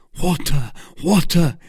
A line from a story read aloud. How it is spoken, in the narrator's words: cried D'Artagnan